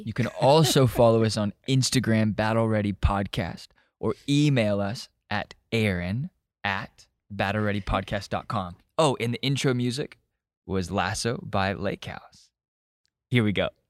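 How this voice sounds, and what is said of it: Soothing radio-announcer voice. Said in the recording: “You have such a great radio voice. ... It's very soothing. ... I've never heard you talk like that before.”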